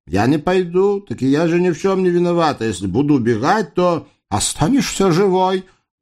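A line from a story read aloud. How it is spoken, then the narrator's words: Barking. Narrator (Russian): рявкнул Дамулло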